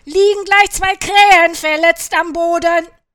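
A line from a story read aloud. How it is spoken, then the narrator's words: Shouting. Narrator (German): schrie Caillou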